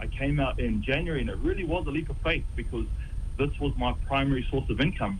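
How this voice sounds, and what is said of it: New Zealand accent. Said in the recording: “especially being from New Zealand. Hey, everyone loves Kiwis, right? They love our accent.”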